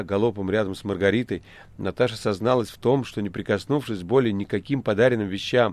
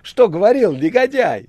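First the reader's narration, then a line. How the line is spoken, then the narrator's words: Shrieking and laughing. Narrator (Russian): визжал и хохотала Наташа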